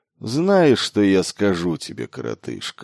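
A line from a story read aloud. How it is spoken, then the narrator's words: Magnanimous tone. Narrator (Russian): великодушным тоном произнес он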